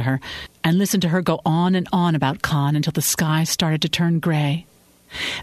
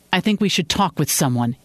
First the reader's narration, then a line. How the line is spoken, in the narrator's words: he said